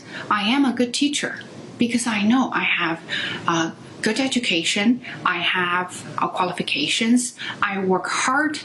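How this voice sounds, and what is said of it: Non-native Chinese accent in English. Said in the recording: “my accent ... you have accent, because you're non native speaker, because you're from China”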